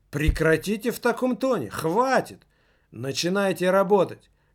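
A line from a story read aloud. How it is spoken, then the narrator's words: Shouted. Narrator (Russian): крикнул он кому-то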